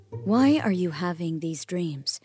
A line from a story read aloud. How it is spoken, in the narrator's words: Israel asked Joseph